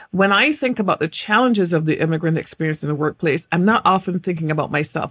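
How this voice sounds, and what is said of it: English accent. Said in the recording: “I was born in England and I had this particular accent”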